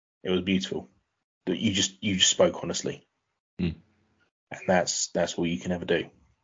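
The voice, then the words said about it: Emotional, choked-up speech. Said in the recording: “getting emotional”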